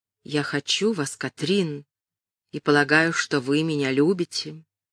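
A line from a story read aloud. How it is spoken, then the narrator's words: Barely audible, calmer breathing. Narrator (Russian): Его дыхание несколько успокоилось, и он сказал едва слышно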